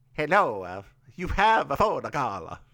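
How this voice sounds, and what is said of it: Bad put-on Italian accent. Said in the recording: “That is a terrible Italian accent... That's a terrible Italian accent.”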